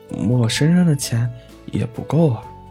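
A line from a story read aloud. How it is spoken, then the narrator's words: Sighing, little rabbit. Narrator (Chinese): 小兔子 叹了口气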